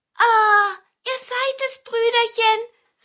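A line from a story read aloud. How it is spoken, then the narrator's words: Called out, big pine cone. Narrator (German): rief der große Tannenzapfen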